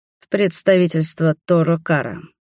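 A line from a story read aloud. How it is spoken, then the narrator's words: Snorting. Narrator (Russian): хмыкнул я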